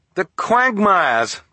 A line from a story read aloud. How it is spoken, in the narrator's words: Klaus cried